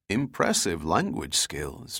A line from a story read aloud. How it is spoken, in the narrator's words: Giordino said quietly